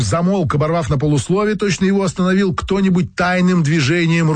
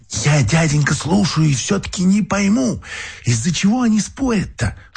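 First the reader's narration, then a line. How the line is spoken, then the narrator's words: Whispering. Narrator (Russian): шепотом обратилась Марфуша к Феогносту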